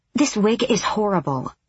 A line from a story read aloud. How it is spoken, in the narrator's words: Lysandra hissed